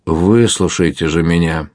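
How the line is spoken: Lively, warm. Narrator (Russian): С живостью продолжал король, ласково улыбаясь

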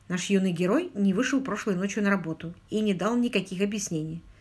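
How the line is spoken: Quiet speech. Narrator (Russian): Барри тихонько сказал

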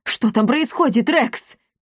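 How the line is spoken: Shouted. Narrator (Russian): крикнул он

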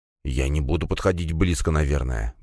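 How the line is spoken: Mumbling while walking. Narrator (Russian): бормотал на ходу слуга

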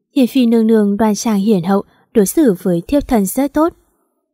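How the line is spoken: Gentle smiling voice. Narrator (Vietnamese): Vũ Ngưng mỉm cười, nhẹ nhàng nói

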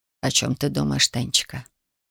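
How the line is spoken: Quiet question, old man. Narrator (Russian): дедушка тихо спросил

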